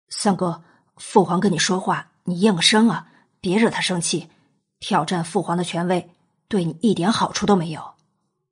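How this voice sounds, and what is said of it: Quiet, hushed urging. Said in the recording (Chinese): “小声的催着”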